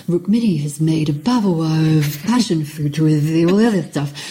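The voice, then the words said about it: Imitates another person's voice. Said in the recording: “That's like, a really good impression.”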